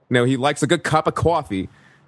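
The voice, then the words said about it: Imitated strong Brooklyn accent. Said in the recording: “strong Brooklyn accent ... He talks like that ... I'm probably butchering it right there a little bit too”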